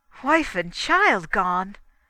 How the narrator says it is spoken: exclaimed

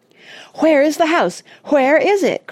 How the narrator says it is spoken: cried Oliver

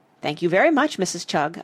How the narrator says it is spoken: I said quickly

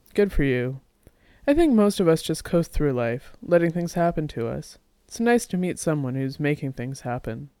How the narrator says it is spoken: Jack laughed and said

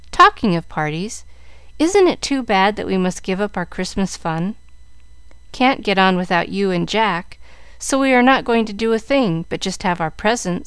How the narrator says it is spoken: said Mary sadly

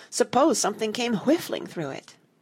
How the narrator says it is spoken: cried Martha

